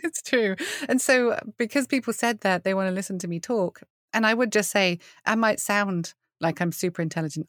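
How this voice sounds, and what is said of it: British accent. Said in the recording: “British accents ... they make you sound so eloquent ... It's just an accent”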